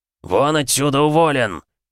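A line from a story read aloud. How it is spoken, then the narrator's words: Loud spluttering bark. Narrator (Russian): гаркнул Киря так, что обрызгал лысину шпалы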